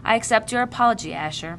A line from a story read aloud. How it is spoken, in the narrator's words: said wearily